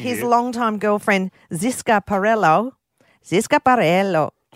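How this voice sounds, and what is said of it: Put-on Spanish accent, like Gloria. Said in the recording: “did I just do the Spanish accent? ... Gloria from Modern Family there for a while.”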